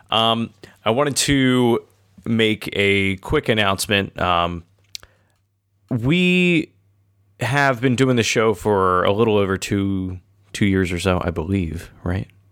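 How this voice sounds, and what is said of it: Sick-sounding voice. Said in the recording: “If I sound a little sick, it's because I'm getting over a cold.”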